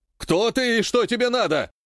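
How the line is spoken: Priest shouting. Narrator (Russian): прокричал один из жрецов

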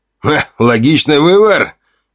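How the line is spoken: Snorting approval. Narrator (Russian): Гриша хмыкнул

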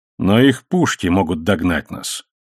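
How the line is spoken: Calm reminder. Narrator (Russian): спокойно напомнил Сакарелбар

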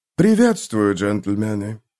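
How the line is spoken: Soft greeting. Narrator (Russian): мягко произнес прибывший

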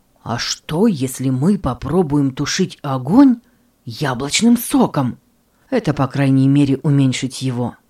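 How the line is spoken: Exclaimed. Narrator (Russian): он воскликнул

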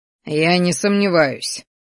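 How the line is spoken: Wry snort. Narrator (Russian): хмыкнул

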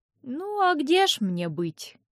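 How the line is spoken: Sighing aunt. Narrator (Russian): тетя Файлина вздохнула

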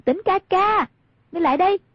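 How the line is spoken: Raised calling voice. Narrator (Vietnamese): Hoàng Dung cao giọng gọi

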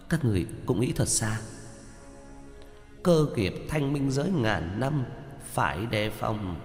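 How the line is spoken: Startled mutter. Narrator (Vietnamese): Giao Quang Tiên Tử giật mình lẩm bẩm

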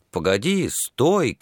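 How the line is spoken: Shouting. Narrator (Russian): кричал он

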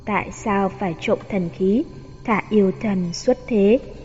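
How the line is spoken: Cold, echoing in hall. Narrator (Vietnamese): Tiếng Bạch Tử Họa lạnh lùng vang lên bên trong đại điện

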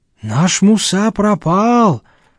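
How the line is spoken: Sighing. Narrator (Russian): вздохнул Казбек

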